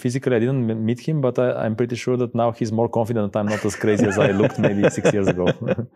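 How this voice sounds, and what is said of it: Thick Balkan accent. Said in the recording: “my thick Balkan accent”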